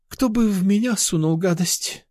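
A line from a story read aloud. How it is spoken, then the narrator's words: Sighing. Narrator (Russian): вздохнула Мария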